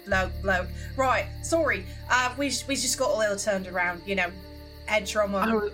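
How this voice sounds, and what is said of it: Put-on accent, switching accents. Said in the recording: “I'm accent hopping now”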